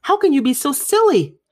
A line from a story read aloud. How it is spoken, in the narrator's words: cried her mother